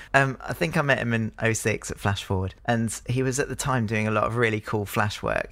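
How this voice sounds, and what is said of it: Hoarse, strained voice. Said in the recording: “I'm really losing my voice.”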